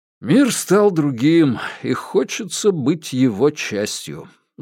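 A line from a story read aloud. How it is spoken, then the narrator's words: Sighed. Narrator (Russian): вздохнул Паскаль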